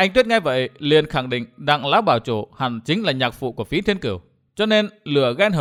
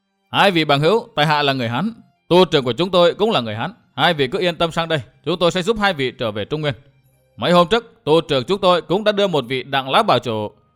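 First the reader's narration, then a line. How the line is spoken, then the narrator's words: Loud voices. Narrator (Vietnamese): Những người ấy lại lớn tiếng nói tiếp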